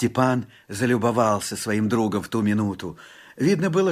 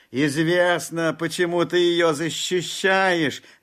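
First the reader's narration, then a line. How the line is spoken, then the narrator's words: Mischievous shout. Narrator (Russian): кто-то крикнул, озорничая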